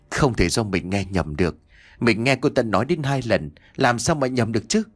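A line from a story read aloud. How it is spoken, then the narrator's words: Stammering. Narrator (Vietnamese): Miệng Nhã Kiều lắp bắp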